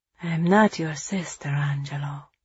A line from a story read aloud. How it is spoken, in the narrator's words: she said softly